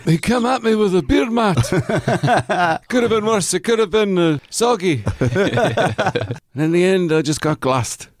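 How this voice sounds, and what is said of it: Put-on Scottish accent. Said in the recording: “Sorry for the bad Scottish accent ... yours is good at it ... mine is just Billy Connolly's brother ... the standard one that everyone does”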